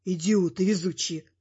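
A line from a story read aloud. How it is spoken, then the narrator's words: Grumbling. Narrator (Russian): буркнул тогда любимый внук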